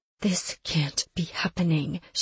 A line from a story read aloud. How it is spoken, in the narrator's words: she whispered